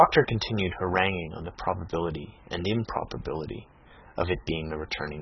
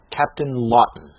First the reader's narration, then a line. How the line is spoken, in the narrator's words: exclaimed the surgeon